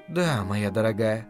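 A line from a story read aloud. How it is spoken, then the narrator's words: Gentle. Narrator (Russian): мягко произнесла Делия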